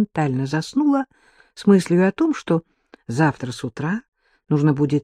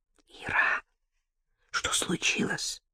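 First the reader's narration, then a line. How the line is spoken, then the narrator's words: Whispered question. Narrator (Russian): шепотом спросила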